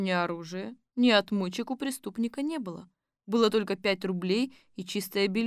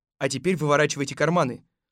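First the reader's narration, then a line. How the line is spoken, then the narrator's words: Stern command. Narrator (Russian): строго приказал Колобок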